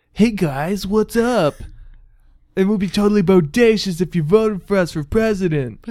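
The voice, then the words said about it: Put-on California accent. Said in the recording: “let me see if I can do a California accent.”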